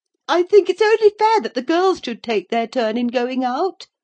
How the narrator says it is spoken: exclaimed Agnes briskly

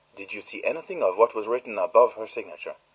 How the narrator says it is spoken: asked Poirot sharply

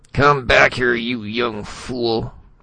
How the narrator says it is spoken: Spradley called hoarsely

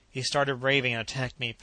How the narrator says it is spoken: panted the captain

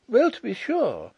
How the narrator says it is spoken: exclaimed Miss Chubb

